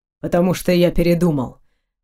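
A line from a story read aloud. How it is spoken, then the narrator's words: Man, suddenly completely calm. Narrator (Russian): вдруг совершенно спокойно ответил мужчина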